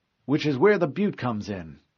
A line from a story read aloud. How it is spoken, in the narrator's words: McKay said